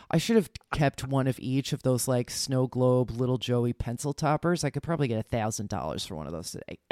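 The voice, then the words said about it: New Jersey accent. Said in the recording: “listen to my Jersey accent now coming out”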